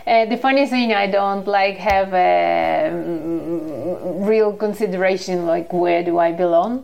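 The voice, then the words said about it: Russian-accented English. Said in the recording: “I detect an accent ... I'm originally from Russia”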